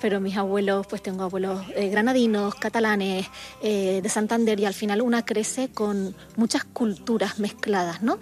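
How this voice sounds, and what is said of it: Canary Islands Spanish accent. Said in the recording (Spanish): “Yo soy canaria, como mi acento dice”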